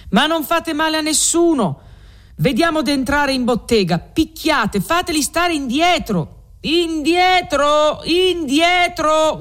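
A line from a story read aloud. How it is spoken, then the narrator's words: Guards shouting. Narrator (Italian): gridano gli alabardieri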